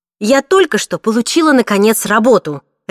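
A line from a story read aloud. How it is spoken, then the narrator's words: Barked snap. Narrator (Russian): рявкнула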